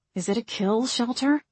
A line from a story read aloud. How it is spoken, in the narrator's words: Margot muttered out of the side of her mouth